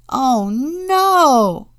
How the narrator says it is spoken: cried George

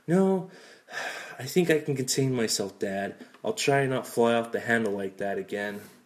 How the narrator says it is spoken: He sighed, saying

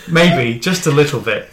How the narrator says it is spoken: he laughed

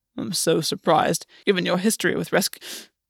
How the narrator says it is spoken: Gwen's voice choked off

